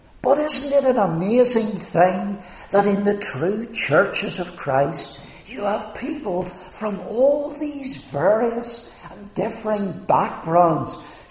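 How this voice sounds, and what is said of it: Northern Irish Ulster accent. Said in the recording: “you can tell from my accent, if you don't know me, where I come from ... the province of Ulster”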